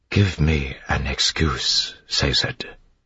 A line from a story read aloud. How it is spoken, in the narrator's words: she whispered